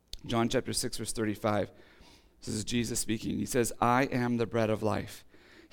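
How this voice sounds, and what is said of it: Hoarse, strained, fading voice. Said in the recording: “I am losing my voice quickly”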